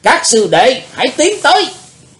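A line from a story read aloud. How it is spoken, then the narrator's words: Loud command. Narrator (Vietnamese): Đệ nhất sứ giả quát lớn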